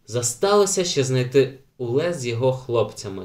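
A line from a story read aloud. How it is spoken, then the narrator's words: Plain. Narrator (Ukrainian): сказав Ейнар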